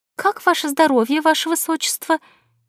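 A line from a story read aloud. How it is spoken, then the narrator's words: Maid's timid squeak. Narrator (Russian): несмело пискнула одна из горничных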